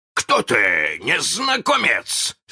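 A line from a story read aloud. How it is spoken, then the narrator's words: Shout. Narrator (Russian): закричал он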